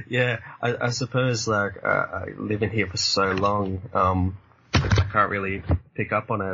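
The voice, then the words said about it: Foreign accent. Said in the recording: “if you had an accent. I'm just like, well, of course you do... I think most Americans love a foreign accent.”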